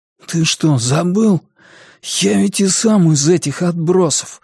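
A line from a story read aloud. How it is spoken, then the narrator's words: Hoarse reply. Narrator (Russian): хриплым голосом ответил Сиян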